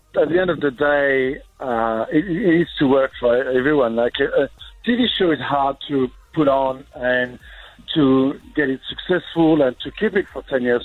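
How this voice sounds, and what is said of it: French accent. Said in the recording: “the French accent is going to be an issue.”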